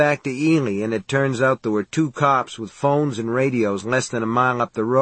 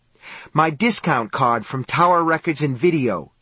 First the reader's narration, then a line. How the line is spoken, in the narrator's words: she snapped